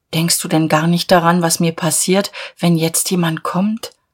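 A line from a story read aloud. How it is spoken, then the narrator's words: Sad question. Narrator (German): Sie fragte traurig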